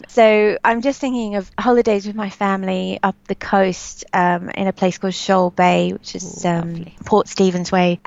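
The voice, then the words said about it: Slight Australian Sydney accent. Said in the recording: “I can hear a slight accent, by the way. Yes. Sydney cider accent underneath.”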